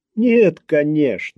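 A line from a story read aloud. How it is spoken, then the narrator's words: Laughing. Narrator (Russian): засмеялся Кука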